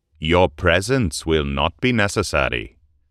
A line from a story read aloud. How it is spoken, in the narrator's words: said in a stern tone